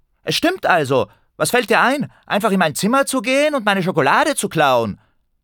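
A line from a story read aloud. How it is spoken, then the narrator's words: Indignant shout. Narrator (German): rief empört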